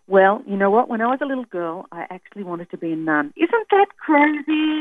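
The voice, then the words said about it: Australian accent. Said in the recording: “That's my Australian accent.”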